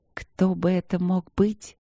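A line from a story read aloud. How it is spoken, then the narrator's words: Muttering. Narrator (Russian): пробормотала Поля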